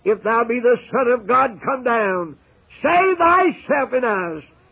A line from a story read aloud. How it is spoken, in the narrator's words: The enemies cried